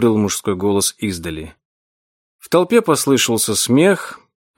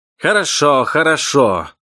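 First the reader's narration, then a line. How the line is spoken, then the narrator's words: Shouted. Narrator (Russian): прокричал он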